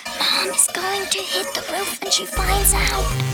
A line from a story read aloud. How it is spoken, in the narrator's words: whispered